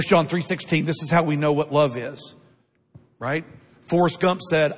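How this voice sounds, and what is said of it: Usual voice. Nothing is said of it.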